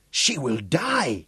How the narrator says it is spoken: gasped Batso

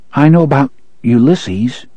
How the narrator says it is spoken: Jake said hesitantly

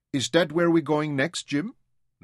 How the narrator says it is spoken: Louisa asked

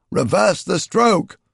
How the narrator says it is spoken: Zaras shouted again

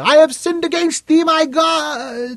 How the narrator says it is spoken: screamed

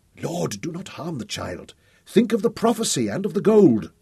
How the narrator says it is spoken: Ben Abram pleaded

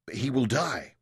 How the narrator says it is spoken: Mansur asked anxiously

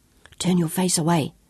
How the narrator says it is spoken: Sean told Claudia in a tight whisper

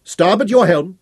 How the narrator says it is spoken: he said sharply

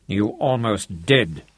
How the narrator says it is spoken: growled

